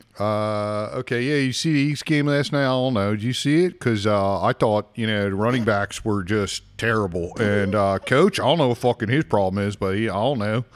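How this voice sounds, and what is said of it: Put-on Philadelphia accent. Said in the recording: “Say something to us in a real Philly accent. ... That's the Philly accent. And that's the way they talk.”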